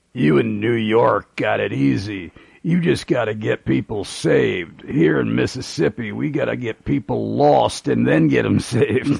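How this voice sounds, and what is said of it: Thick southern accent, gravelly deep voice. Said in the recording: “in his very thick southern accent, very gravelly, deep voice”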